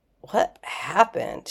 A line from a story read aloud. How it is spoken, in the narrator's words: He asked, his voice hoarse